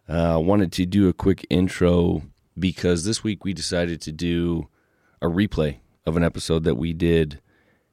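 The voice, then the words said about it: Sick, strained voice. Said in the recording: “apologize for my voice. ... Got a little respiratory issue this week”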